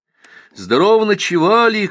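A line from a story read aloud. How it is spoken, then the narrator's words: Joyful shout. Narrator (Russian): крикнул радостно Донька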